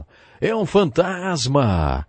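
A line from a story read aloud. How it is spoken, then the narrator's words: Frightened shouting. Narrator (Portuguese): gritaram de medo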